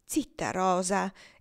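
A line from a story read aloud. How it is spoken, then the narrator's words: Exclaimed. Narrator (Italian): esclamò Evangelina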